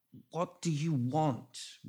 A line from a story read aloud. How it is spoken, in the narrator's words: Renfield finally croaked